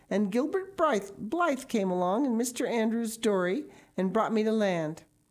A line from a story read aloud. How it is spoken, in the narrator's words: exclaimed Anne wearily